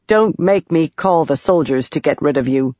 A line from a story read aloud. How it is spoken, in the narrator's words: Yasna said